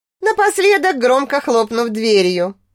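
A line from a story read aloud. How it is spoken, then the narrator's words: Snorting. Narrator (Russian): хмыкнула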